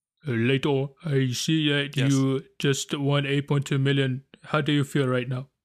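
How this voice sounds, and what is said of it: Good put-on accent. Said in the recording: “Wow, what a good accent! Wow, it just transported me somewhere else.”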